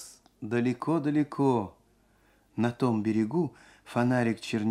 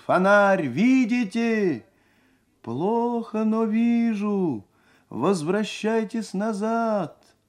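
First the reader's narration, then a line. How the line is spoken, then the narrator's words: Shouting at full strength. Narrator (Russian): крикнул изо всех сил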